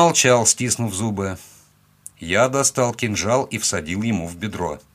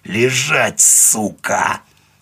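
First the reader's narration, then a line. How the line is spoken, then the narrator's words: Hissing. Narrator (Russian): прошипел я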